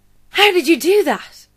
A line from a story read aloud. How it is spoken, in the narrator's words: Yaz gasped